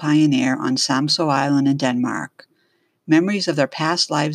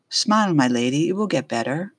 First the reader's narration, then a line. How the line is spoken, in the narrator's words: John said softly